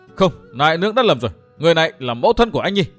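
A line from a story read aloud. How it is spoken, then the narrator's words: Nearly shouting. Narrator (Vietnamese): Phan Ngọc Anh nói như hét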